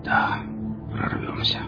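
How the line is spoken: Fading whisper. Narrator (Russian): прошептал, проваливаясь в беспамятство

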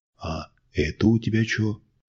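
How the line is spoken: Insinuating question. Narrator (Russian): вкрадчиво спросил Щербатый

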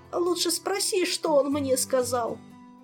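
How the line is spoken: Moaned. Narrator (Russian): простонал Артура

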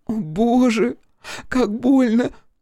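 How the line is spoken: Frightened little-girl babble. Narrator (Russian): пролепетала она испуганным голосом маленькой девочки

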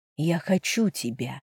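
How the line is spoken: Passionate whisper. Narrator (Russian): страстно прошептала

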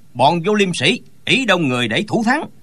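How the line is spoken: Scoffing angry scolding. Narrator (Vietnamese): Ngô Đạo Thông hứ lên một tiếng rồi quát mắng

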